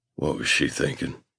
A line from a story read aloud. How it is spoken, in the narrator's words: He says, his voice hoarse